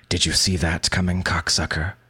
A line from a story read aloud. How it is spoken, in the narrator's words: hisses